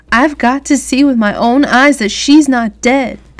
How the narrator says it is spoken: Brenda said loudly

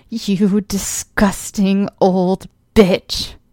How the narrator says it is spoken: I growled

